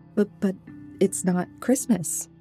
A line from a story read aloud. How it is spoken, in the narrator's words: I stammered